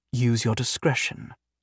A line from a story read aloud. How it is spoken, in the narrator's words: Liara said